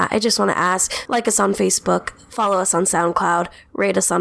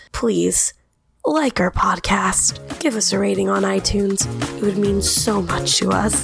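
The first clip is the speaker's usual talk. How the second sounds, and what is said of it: Sad pleading charity-ad voice. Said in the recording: “this sounds like a really, really sad advertisement for adopting dogs ... my little ASPCA impersonation”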